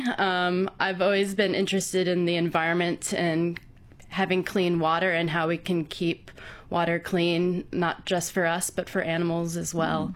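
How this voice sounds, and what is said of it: American accent. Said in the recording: “I'm detecting an accent there as well ... I grew up in the States”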